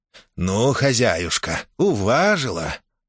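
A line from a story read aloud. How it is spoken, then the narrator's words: Sweet purring voice. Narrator (Russian): сладким голосом промурлыкал Министрель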